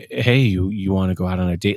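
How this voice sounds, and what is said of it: Creepy put-on voice. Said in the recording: “in that creepy voice”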